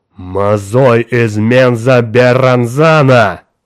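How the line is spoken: Loud exclamation. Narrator (Russian): громко воскликнул Тургат

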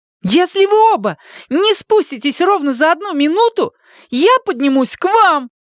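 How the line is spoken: Shouted from below. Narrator (Russian): крикнула снизу Сьюзен

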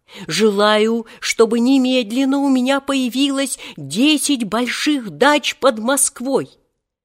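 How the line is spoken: Yelling. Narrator (Russian): снова заорал

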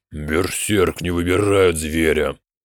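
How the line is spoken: Through gritted teeth. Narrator (Russian): процедил Мектик

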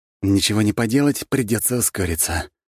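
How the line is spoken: Sighing command. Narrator (Russian): вздохнул и приказал

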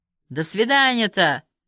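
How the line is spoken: Shouted, then deflated. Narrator (Russian): выкрикнул кто-то и скис

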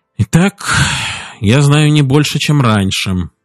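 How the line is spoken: Sad remark. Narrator (Russian): печально заметил Эмер

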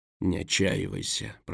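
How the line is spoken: Mutter. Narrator (Russian): пробормотал Дурайд

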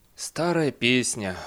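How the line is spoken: Sigh. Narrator (Russian): вздохнул Бейли

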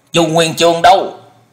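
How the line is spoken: Stern shouted question. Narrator (Vietnamese): Dân Hư nghiêm nghị quát hỏi

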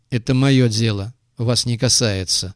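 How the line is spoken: Glum. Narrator (Russian): уныло произнес Крупица

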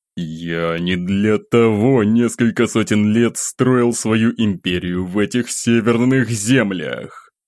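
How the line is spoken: Silent inner growl. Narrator (Russian): мысленно рычал он

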